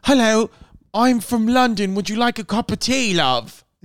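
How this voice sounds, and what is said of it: Put-on British accent. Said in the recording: “British. ... You do them good.”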